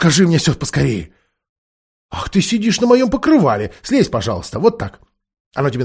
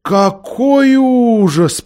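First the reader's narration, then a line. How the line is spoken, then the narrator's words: Drawn out. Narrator (Russian): протянула Лазарелина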